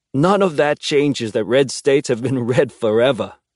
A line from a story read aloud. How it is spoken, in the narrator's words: he says, laughing, like it's something to joke about